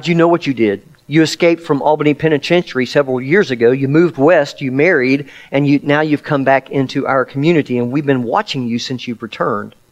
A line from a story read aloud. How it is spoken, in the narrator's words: the detective calmly replied